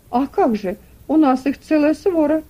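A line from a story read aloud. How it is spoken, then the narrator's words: Exclaiming. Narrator (Russian): воскликнул Сэм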